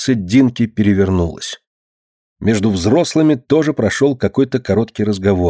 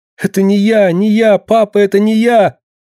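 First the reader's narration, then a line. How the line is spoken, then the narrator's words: Thin, hysterical pleading cry. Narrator (Russian): забившись в истерическом плаче, муха тоненько закричала, словно моля о помощи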